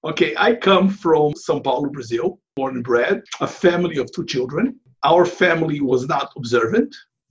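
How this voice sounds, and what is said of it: Non-native English accent. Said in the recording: “someone listening to your voice for more than 1 or 2 seconds will note that you're not a Native American ... You may have worked on it, but ... I'm sorry to say, it still lingers.”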